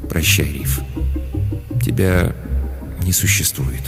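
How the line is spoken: Quiet. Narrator (Russian): сказал тихо

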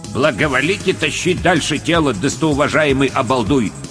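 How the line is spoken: Plain. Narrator (Russian): ответил

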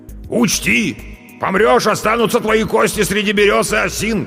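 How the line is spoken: Shouting after someone. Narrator (Russian): кричал он мне уже в спину

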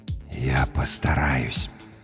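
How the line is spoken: Barely audible. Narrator (Russian): едва слышно сказала наконец смерть

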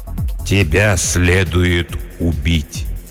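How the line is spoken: Slow. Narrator (Russian): медленно произнес владыка Лориэна

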